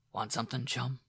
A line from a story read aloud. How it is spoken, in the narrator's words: asked softly